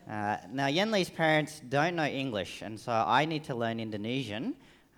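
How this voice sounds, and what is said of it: Strong Australian accent. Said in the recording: “the very Australian accent”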